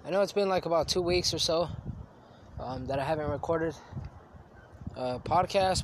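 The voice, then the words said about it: Sniffly, congested sick-sounding voice. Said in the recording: “if I'm sniffling and, if I sound a little sick,... I think I have a cold.”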